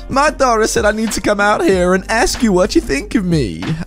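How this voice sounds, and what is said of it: Thick high-pitched Southern accent. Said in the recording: “with an extremely thick, high-pitched southern accent that I'm going to attempt”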